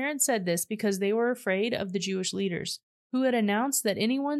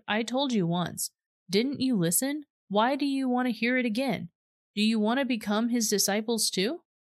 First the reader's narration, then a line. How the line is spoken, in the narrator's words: the man exclaimed